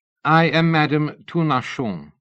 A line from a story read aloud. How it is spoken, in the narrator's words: she said